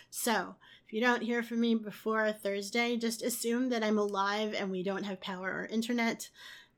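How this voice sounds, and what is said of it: Strained, failing voice. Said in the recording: “as you can hear, my voice is about to die.”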